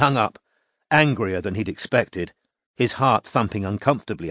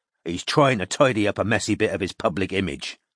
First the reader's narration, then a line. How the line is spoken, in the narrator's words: said Strike harshly